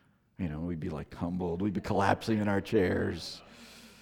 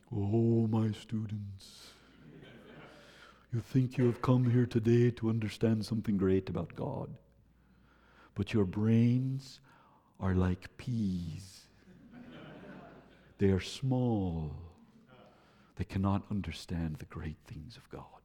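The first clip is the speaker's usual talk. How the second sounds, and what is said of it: Imitates an old Dutch professor's voice. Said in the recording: “He was a Dutch theology professor ... my best Henry Krabbendam imitation.”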